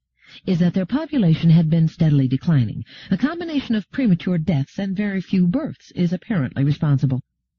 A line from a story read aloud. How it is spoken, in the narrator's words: said Gladia calmly